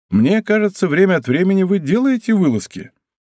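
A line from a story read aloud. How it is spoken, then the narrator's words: Laughing. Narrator (Russian): сказал, смеясь, Д'Артаньян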